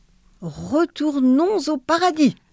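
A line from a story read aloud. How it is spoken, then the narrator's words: Exclaiming. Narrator (French): s'écria le bon Dieu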